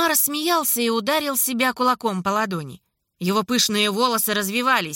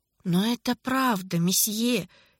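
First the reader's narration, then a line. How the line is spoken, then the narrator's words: Quiet. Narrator (Russian): тихо сказал Маке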